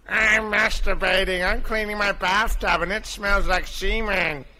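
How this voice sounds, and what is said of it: Family Guy cartoon character voice. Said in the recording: “Chris Griffin ... That was Family Guy.”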